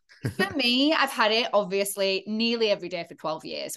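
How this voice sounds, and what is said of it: Hard-to-place English accent. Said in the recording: “I sound English, but it's very hard to place my accent ... originally from the north of England, but yeah, my accent is kind of all over the shop”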